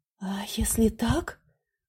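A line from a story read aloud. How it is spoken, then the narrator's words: Whispered. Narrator (Russian): прошептала она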